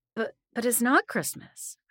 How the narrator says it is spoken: I stammered

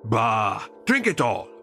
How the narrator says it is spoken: Kroll boomed

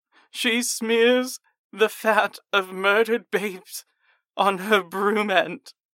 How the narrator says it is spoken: I scream

